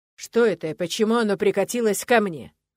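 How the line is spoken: Boar speaking through teeth. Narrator (Russian): процедил кабан

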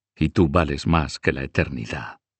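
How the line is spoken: Whispering. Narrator (Spanish): susurró

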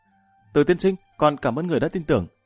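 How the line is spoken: Loud, grateful youth. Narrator (Vietnamese): Gã thiếu niên Trình Đại Vị này trong mặt hiện lên một tia cảm kích, lớn tiếng nói

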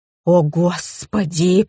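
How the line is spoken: Moaning. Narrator (Russian): простонала Зинаида

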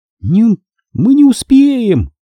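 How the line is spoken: Sharp cry. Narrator (Russian): вскрикнула Андра

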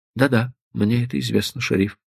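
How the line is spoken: Gentle interruption. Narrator (Russian): мягко прервал его Стеджер

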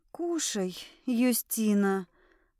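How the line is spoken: Strained, after clearing throat. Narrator (Russian): Прочистив горло, выдавила из себя эльфийка

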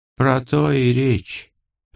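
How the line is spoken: Sighing. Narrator (Russian): вздохнула девушка

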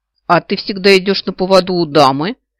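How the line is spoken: Skeptical snort. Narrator (Russian): Явно не поверив крылатому, хмыкнула леди Вид

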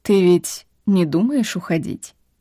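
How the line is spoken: Calm. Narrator (Russian): Он говорил спокойно

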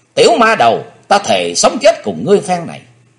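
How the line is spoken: Bloodcurdling hateful scream. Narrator (Vietnamese): Máu hận thù trong quyết quản của thiếu nữ sôi lên cùng độ, nàng hét nghe rợn cả người

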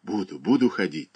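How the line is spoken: Hurried whisper. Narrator (Russian): торопливо шептала она

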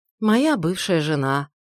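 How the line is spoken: Sad reply. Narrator (Russian): грустно ответил капитан

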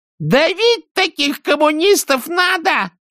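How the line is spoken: Sudden shrill scream. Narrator (Russian): закричала она вдруг визгливо

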